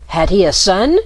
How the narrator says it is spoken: cried Marco

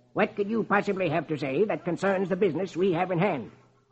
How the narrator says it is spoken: Marlowe snaps

